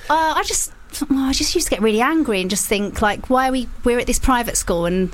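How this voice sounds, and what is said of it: Essex English accent. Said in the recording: “Can you tell the Essex accent? ... As soon as you mentioned it, I went, yeah, that makes a lot of sense.”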